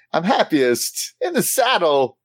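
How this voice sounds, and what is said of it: Christopher Walken impression. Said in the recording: “do a Christopher Walken. ... Perfect. It was perfect. ... Nailed it.”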